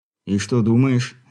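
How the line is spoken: Weary question. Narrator (Russian): устало спросил волк

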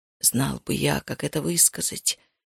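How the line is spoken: Mumbled. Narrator (Russian): пробормотал он

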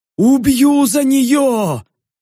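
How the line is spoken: Roaring zombie. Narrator (Russian): проревел зомби

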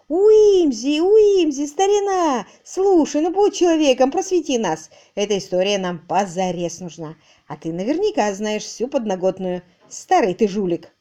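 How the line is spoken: Joyful shouting. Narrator (Russian): один из чужаков радостно заорал

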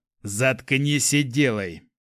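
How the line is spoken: Growl. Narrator (Russian): рыкнул он

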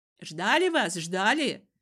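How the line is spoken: Women shouting over each other. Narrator (Russian): наперебой закричали тетки

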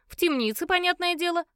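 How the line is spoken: Snort. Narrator (Russian): фыркнула Марджи

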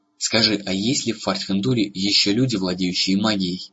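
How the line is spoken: Hurried question while walking. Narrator (Russian): спросил Эрагон, стараясь поспевать за удивительно быстро шагавшим гномом

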